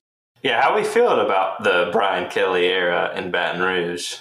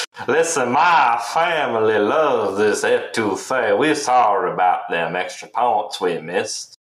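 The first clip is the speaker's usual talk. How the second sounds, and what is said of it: Put-on Louisiana accent. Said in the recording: “He needs to bring the accent back. They're already figuring out he's not from there.”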